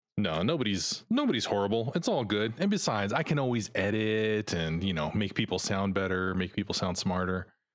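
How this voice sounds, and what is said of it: Polished radio-announcer voice. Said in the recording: “you seem to have that radio voice already”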